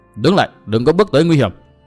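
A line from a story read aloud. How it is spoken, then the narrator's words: Loud shout. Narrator (Vietnamese): có tiếng quát lớn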